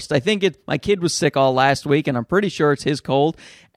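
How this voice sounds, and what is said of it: Sick voice, sore throat. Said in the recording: “Sick, by the way. I am sick. ... before I lose my voice ... I woke up this morning with just a horrific sore throat.”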